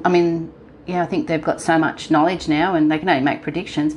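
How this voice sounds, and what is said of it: Australian accent. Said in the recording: “Love that Australian accent.”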